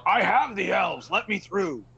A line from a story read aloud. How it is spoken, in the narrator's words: I'll yell